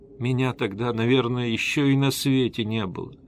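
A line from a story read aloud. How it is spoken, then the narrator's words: Timid babbling. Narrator (Russian): робко пролепетала Эсмеральда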